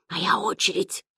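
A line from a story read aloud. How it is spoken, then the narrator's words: Whispered. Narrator (Russian): шепнул Ян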